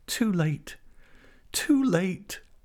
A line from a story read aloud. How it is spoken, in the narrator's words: cried, in the impatience of a person whose tortures cause every instant to seem an hour